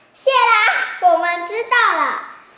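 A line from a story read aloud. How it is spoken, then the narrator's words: Impatient shout. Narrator (Chinese): 等不及老乌龟说完，眼镜猴就大喊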